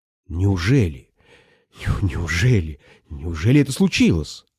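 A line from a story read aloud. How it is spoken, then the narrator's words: Muttering. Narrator (Russian): бормотал я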